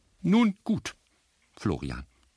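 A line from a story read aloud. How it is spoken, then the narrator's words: Plain. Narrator (German): sagte sie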